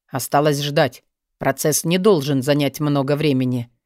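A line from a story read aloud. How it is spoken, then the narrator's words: Matter-of-fact businesslike tone. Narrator (Russian): произнес он обыденным, абсолютно деловым тоном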